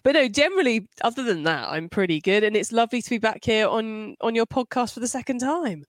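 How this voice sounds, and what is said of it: Congested voice from a cold. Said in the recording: “I'm quite full of cold, so sorry for the slightly weird voice”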